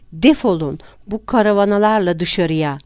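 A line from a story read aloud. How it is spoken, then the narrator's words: Sudden harsh shout. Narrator (Turkish): diye birdenbire ve sert bir şekilde haykırdı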